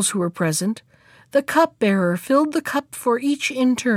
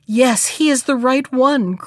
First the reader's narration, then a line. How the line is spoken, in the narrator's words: cried the youngest princess when she caught sight of him